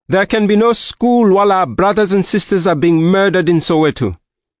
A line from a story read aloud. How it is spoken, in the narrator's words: One student in the back row shouted